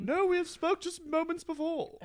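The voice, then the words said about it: Put-on British accent. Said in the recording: “Can you answer with a British accent?”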